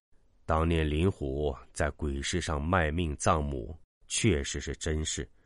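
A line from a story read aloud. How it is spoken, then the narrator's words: Slow, elderly. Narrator (Chinese): 杨丽太爷缓缓说道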